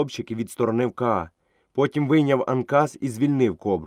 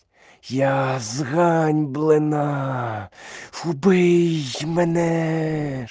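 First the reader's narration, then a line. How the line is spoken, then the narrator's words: Cobra's hiss. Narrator (Ukrainian): шипіла кобра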